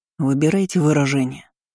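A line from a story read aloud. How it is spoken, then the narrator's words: Growl. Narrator (Russian): рыкнул брюнет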